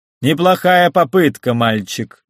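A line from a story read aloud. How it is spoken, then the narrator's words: Loud. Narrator (Russian): громко сказал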